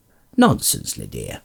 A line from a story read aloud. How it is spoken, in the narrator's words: snorted Bilbo